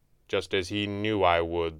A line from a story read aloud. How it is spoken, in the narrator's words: the Red Panda said coldly